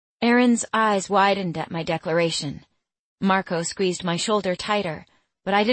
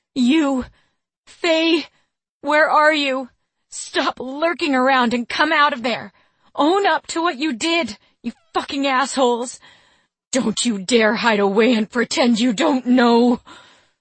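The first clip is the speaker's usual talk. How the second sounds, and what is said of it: Ragged angry shouting. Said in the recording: “raised my voice in a ragged shout ... My voice cut off with a growl of frustration.”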